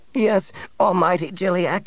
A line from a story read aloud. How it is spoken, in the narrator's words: Nebel quavered